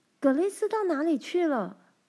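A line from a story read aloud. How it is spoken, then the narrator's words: Sudden loud shout. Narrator (Chinese): 突然大叫一声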